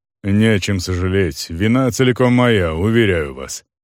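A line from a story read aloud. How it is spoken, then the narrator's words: Pedantic, deep low bass. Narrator (Russian): педантично заявил человек глубоким низким басом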